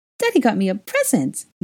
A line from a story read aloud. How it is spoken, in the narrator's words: He squealed with excitement